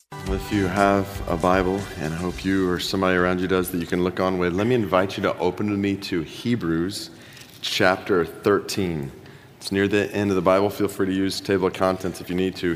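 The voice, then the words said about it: Slightly rough, unwell-sounding voice. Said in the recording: “forgive my voice a bit today ... I'm a bit under the weather right now”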